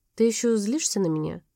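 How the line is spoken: Quiet question. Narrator (Russian): тихо спросил

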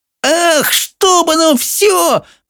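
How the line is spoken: Shouting. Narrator (Russian): закричала Софи

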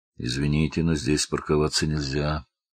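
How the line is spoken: Calm, policeman. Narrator (Russian): спокойно сказал полицейский

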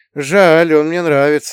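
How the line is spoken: Sighed. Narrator (Russian): вздохнул я

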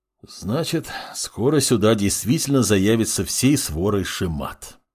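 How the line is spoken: Sighing former investigator. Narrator (Russian): вздохнул бывший следователь

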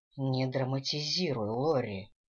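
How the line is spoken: Sighed. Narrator (Russian): вздохнул Дэниел

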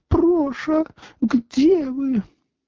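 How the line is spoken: Tender, nasal voice after crying. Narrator (Russian): красавица музыкальным нежным голосом, немного гнусавым после плача, воскликнула

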